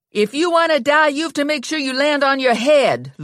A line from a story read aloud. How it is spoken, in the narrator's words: Lula yelled up to Ginny